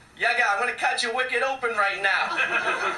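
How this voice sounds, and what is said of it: Put-on Boston accent. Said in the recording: “the Boston accent”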